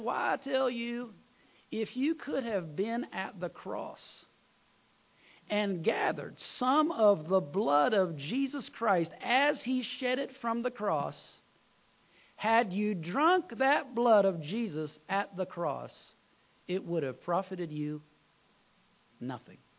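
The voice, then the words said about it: Southern American preacher accent. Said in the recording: “It had a southern accent... This guy had a southern accent... I'm just going to tell you what he said with his accent.”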